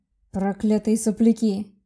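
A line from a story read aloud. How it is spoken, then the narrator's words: Growl. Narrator (Russian): прорычал Влад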